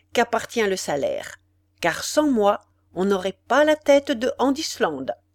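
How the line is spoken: Cold, small man. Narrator (French): dit froidement le petit homme

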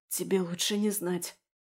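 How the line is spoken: Hoarse answer. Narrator (Russian): ответила хрипло

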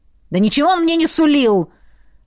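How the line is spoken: Hurt, angry bark. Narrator (Russian): Рявкнул уязвленный парень

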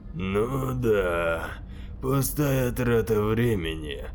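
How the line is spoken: Said, then deep laugh. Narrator (Russian): сказал Зебедай и низким голосом рассмеялся

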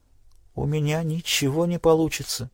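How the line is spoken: Barely audible. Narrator (Russian): едва слышно ответила она

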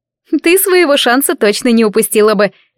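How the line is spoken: Snide remark. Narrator (Russian): ехидно заметила Патрис

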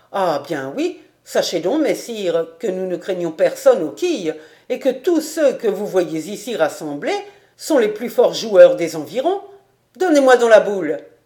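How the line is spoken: Exclaimed. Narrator (French): s'écria

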